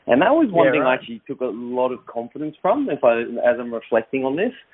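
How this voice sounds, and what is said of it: Australian accent. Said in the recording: “I picked up the Australian accent”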